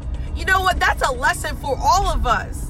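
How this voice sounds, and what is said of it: Excited yelling. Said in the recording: “sorry I'm yelling, but when I get excited, I yell.”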